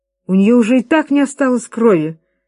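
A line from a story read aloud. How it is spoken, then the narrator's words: Exclaiming. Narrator (Russian): воскликнула миссис Уилкис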